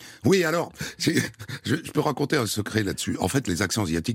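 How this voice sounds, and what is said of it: Usual voice. Nothing is said of it.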